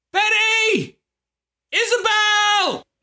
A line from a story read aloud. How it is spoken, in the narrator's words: screamed